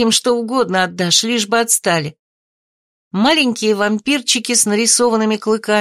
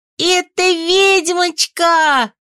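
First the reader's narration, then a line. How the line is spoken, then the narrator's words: Shrill squeal, little girl. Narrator (Russian): Пронзительно взвизгнула маленькая карнавальная ведьмочка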